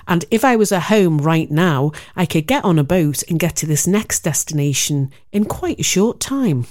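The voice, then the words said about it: Liverpool (Scouse) accent. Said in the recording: “I'm from Liverpool. Who'd have thought it, with my cut-glass English accent?”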